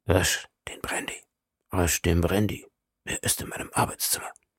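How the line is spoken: Whisper. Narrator (German): flüsterte ich Quincy zu

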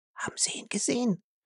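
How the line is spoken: Trembling frightened whisper. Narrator (German): flüsterte, zitterte an allen Gliedern

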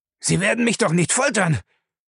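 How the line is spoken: Terrified scream. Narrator (German): schrie Lacey entsetzt auf

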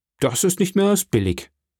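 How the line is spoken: Called out. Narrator (German): rief Herr von Beauville

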